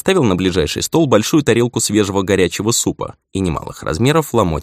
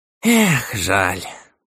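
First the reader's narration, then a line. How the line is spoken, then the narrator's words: Old man's disappointed sigh. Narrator (Russian): разочарованно вздохнул старик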